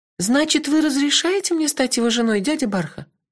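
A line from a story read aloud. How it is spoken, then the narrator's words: Timid question. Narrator (Russian): робко уточнила Кенлех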